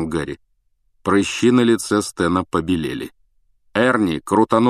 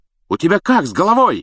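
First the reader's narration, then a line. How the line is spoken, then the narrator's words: Yelled. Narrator (Russian): завопил Стэн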